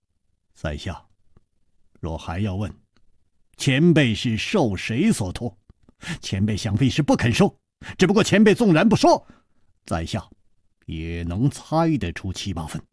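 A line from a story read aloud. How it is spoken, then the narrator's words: Calm faint smile. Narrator (Chinese): 楚留香淡淡一笑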